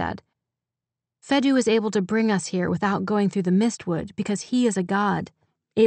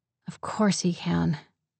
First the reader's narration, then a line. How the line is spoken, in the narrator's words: she said bitterly